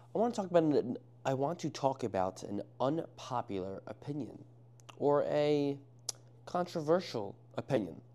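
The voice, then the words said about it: Speaker's noticeable accent. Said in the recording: “Yes, I do have an accent.”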